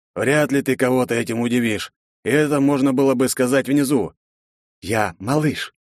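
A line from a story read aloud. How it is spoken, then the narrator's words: Asked. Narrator (Russian): пахан поинтересовался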